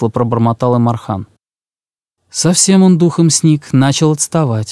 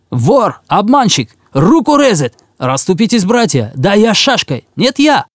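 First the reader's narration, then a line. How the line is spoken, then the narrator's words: Crowd yelling. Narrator (Russian): орали в том толковище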